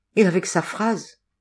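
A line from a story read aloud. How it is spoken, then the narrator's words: Breathy whisper. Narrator (French): souffla Patrice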